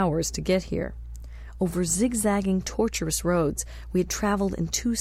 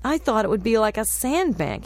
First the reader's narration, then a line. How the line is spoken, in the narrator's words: he exclaimed